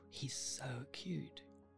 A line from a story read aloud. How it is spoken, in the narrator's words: All her girlfriends whisper